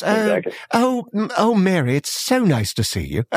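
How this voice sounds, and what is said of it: Put-on English accent. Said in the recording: “it's not believable when they're English ... They're not going to be impressed with the accent.”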